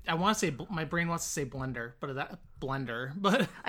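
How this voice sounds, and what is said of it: Mild Illinois Midwest accent. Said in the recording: “with the Illinois accent ... It's not as pronounced as Irv, but you do have one.”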